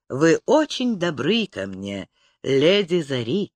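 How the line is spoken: Quiet. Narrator (Russian): тихо проговорил он

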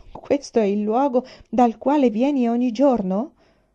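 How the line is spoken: Exclaiming. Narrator (Italian): esclamò

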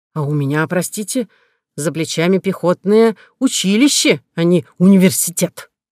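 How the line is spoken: Snapping retort. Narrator (Russian): огрызнулся полковник

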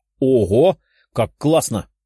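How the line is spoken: Excited exclamation. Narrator (Russian): воскликнула Даша

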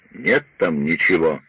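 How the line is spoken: Muttered grumble. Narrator (Russian): пробурчал Пиркс

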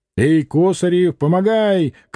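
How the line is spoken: Shout. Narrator (Russian): крикнул кузнец

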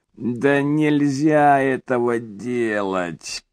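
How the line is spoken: Creaky, tormented voice. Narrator (Russian): проскрипел он голосом, сполна отразившим его мучительное состояние

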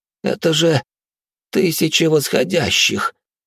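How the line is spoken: Shocked exhale. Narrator (Russian): потрясенно выдохнул он

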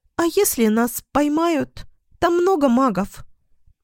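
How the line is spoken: Squeaky, frightened. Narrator (Russian): пискнул третий

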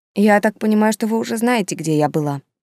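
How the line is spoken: Calm. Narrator (Russian): спокойно ответила она

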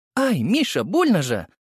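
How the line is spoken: Cry of pain. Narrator (Russian): вскрикнула мама от того, что я придавил ее грудь деснами

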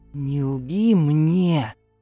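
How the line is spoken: Stepfather's hoarse rumble. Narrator (Russian): хрипло пророкотал отчим

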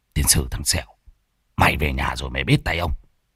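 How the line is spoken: Shaken angry muttering. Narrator (Vietnamese): Thầy Môn Phọt bị Lâm Sẹo chọc ngoáy thì tái mặt lẩm bẩm

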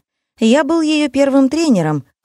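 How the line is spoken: Happy, grinning. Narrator (Russian): радостно осклабился Никита

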